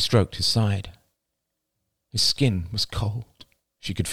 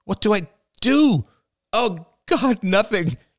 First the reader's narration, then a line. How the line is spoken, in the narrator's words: cried out